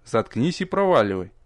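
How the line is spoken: Dry curt. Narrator (Russian): сухо посоветовал ему я

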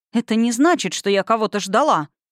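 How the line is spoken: Indignant. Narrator (Russian): сказала возмущенно

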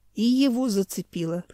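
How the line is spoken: Groaning. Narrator (Russian): простонал Юрайдех

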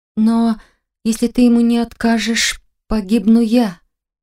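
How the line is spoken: Trembling voice. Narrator (Russian): дрожащим голосом озвучила я

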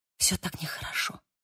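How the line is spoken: Whisper. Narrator (Russian): прошептала она

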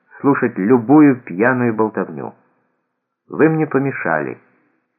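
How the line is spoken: Calm. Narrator (Russian): спокойно сказал Аллан

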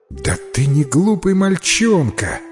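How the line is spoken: Exclaiming. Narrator (Russian): воскликнула миссис Майка

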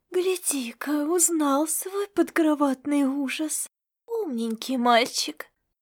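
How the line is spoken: Monster's hiss. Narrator (Russian): прошипело шипастое чудовище

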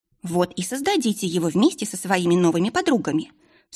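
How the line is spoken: Stern. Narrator (Russian): строго сказала Марилиса

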